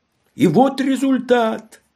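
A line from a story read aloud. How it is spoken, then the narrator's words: Judge exclaiming. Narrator (Russian): воскликнул судья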